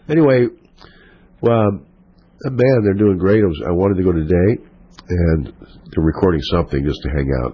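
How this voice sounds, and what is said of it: Hoarse, fading voice. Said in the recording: “I'm losing my voice... I think my voice is going away”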